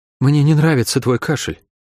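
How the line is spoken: Sighing. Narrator (Russian): вздохнула Шерон

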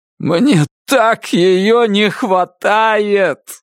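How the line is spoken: Shout broken by painful sob. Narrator (Russian): закричал он, и глубокий судорожно-болезненный вздох разорвал пополам его фразу

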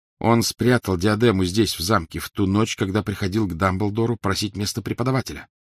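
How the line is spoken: Plain. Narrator (Russian): сказал Гарри

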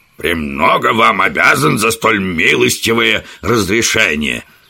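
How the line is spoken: Spiteful. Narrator (Russian): злобно ответил профессор

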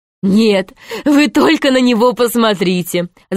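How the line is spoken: Laughing. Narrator (Russian): засмеялась Изабелла

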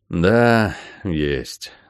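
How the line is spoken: Sighing father. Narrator (Russian): вздохнул папа

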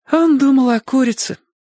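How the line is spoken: Sighing. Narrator (Russian): снова вздохнула Сонька

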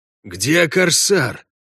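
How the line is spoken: Hoarse question. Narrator (Russian): хрипло спросил Кутняк

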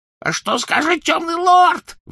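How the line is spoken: Shrieking. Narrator (Russian): взвизгнул он

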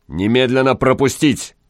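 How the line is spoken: Barked. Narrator (Russian): гаркнул странник

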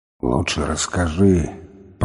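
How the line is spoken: Grumbling. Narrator (Russian): проворчал он

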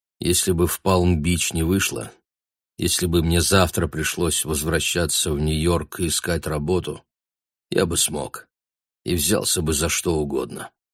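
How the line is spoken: Quiet confession. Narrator (Russian): тихо признался Гай

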